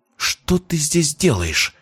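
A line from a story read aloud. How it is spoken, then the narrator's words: Hissed. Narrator (Russian): прошипела Истомина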